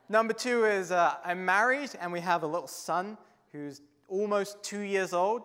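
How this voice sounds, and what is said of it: English accent. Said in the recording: “your ears are not deceiving you. I don't have a Canadian accent. I'm originally from England.”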